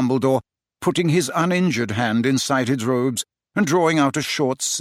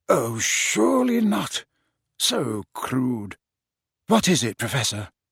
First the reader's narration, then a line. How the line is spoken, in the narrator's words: Dumbledore said quietly